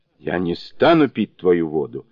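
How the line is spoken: Angry. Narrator (Russian): сердито отвечал Сюаньцзян

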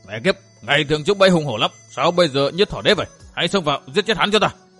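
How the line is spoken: Furious shout. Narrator (Vietnamese): Cam Vi Thiện, Cam phẫn quát

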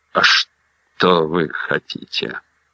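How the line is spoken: Hoarse voice. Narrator (Russian): сипло выговорила Эмма

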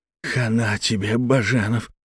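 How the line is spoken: Hissed. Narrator (Russian): прошипел Хаиров

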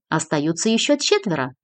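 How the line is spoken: Cheerful. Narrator (Russian): весело продолжала Кристина

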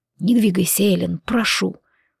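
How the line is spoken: Hoarse plea. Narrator (Russian): хрипло попросил он

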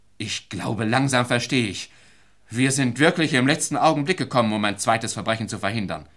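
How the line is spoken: Called out. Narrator (German): rief

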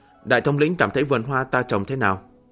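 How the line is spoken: Smiling question. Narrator (Vietnamese): Bích Nguyệt phu nhân mỉm cười hỏi

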